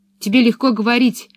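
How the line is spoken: Angry objection. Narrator (Russian): сердито возразила Пеппи

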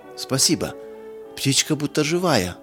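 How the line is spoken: Delighted exclamation. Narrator (Russian): восторженно воскликнула Мирца

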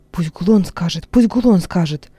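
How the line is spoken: Several voices whispering. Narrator (Russian): зашептало несколько голосов

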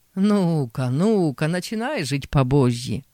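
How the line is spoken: Mocking chorus. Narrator (Russian): Дядя и бывшие тут молокане насмешливо подхватили

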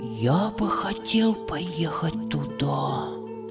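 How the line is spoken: Whisper. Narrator (Russian): прошептал Хамид

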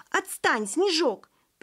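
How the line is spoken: Sharp scolding shout. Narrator (Russian): прикрикнула Таня

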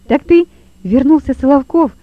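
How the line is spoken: Exclaimed. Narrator (Russian): воскликнул Лева

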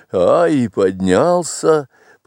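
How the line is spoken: Proud, joyful, chuckling. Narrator (Russian): проговорил он чуть не с гордостью, радостно усмехаясь

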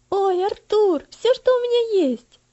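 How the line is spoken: Joyful child's exclamation. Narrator (Russian): радостно воскликнул маленький мальчик

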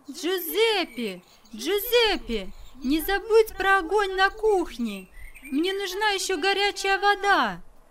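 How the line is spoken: Shouting. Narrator (Russian): она крикнула

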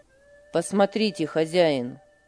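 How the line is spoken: Firm yet respectful. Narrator (Russian): сказал он твердым и вместе с тем почтительным тоном

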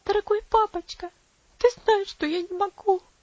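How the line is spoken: Sobbing. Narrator (Russian): всхлипнула она

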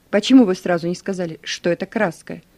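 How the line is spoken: Stern. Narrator (Russian): Капитан ко мне строго

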